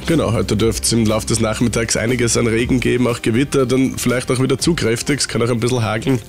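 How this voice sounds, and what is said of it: Slightly congested, cold-affected voice. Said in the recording (German): “Was ist mit deiner Stimme los? Du klingst so... Ich war ein bisschen verkühlt letzte Woche... Und die Pollenallergie noch dazu... man hört es noch ein bisschen.”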